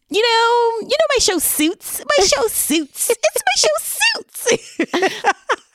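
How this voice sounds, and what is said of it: Valley Girl accent, Meghan impression. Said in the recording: “she has a Valley Girl. I'm so glad they gave her a Valley Girl accent.”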